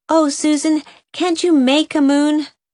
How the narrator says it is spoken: cried Nan despairingly

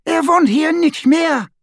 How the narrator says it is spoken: she cried

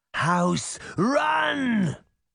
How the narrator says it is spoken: Baba Yaga cried

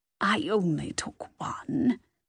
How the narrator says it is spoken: mumbled sheepishly, the words sounding distorted because of the cookie in her mouth

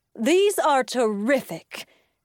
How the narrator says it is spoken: exclaimed

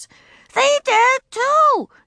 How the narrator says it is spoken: she shouted

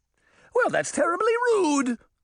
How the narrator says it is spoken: the judge cried

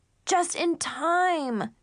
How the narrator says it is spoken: Zoe screamed

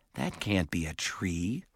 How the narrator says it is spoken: Simon said

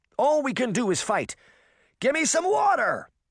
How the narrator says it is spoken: she cried

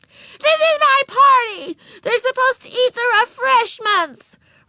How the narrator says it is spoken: Ramona howled

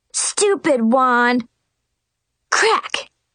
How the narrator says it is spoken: Brianna angrily whacked her wand on the floor and shouted

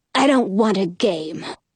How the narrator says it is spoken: snarls

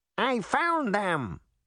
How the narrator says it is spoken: it squeaked

